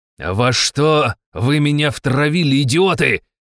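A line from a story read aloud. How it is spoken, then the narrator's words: Count yelling. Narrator (Russian): заорал граф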